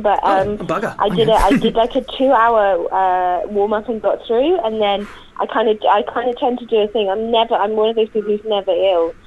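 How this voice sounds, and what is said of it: Hoarse voice. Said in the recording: “I'm a little hoarse”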